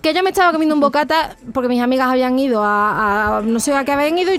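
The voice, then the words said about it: Andalusian Spanish accent. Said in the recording (Spanish): “el acento andaluz”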